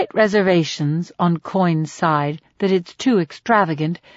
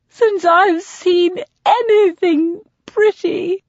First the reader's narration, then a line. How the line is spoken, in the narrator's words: she gasps